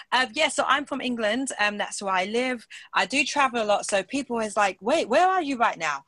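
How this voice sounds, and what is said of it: British English accent. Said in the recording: “my accent can sound a bit weird, but most of the time it's quite British like this ... very British”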